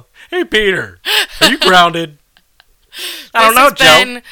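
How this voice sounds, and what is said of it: Cartoon character voice. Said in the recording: “Peter Griffin laughing ... I'm doing cartoon boys now”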